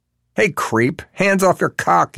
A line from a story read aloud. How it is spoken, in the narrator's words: yells the new guy at Overly Convenience Market